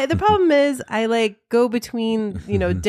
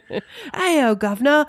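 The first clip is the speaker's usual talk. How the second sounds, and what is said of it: Mock English accent. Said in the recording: “an English accent or British accent ... different English accents”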